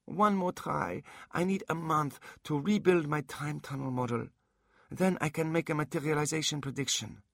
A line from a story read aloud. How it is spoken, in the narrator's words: Minerva pleaded